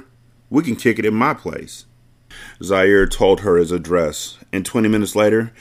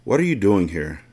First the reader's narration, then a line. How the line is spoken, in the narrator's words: She asked quietly